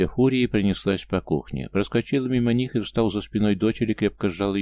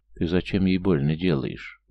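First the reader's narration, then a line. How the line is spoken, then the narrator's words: Calm question. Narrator (Russian): спокойно спросил парень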